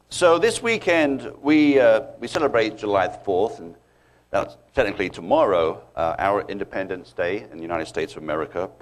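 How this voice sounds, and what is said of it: Strong British accent. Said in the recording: “one of the British guys ... My accent is stronger than his, so mine stands out a bit, bit more obvious ... still can't lose it”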